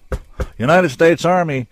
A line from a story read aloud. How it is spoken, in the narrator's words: someone shouted